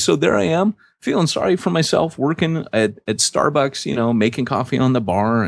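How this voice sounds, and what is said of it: American accent. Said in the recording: “from America? They'd hear my accent”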